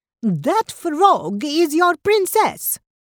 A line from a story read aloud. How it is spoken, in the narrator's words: cried Ravioli